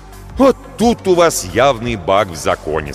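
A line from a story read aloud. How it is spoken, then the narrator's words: Plain. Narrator (Russian): сказал я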